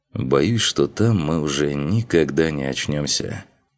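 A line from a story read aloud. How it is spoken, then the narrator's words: Heavy sigh. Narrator (Russian): Тяжело вздохнул Макс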